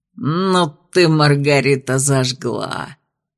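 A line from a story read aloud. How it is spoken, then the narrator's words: Amused snort. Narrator (Russian): Старшекурсник хмыкнул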